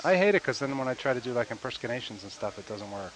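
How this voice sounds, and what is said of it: Hoarse, congested sick-sounding voice. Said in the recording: “I'm just recovering from 2 days of a bad cold ... my voice is a bit”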